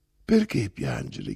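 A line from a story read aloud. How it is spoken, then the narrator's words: Plain question. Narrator (Italian): chiese Olga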